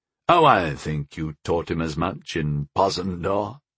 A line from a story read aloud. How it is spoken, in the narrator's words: chuckled Arathaniel